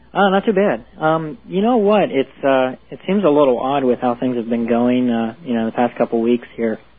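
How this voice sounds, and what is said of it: Pennsylvania accent, slight Pennsylvania Dutch. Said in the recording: “I wonder if that's a Pennsylvania accent we're hearing ... Yeah, it probably is. A little bit of Pennsylvania Dutch.”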